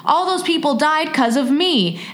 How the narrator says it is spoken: he started to cry and shake his head and said, almost yelling

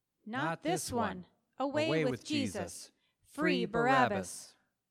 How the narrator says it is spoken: the whole crowd then shouted

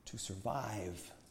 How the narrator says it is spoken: prophet repeated gently

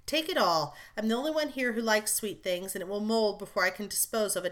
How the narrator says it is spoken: answered Amy, thinking with a sigh

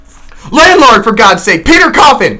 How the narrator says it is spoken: shouted I

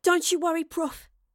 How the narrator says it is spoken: she panted

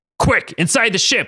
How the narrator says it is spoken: Wolverine B yelled

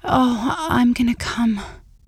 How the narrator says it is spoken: whispered

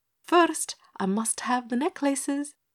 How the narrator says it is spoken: stated Matiah calmly

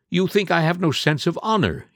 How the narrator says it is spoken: he cried

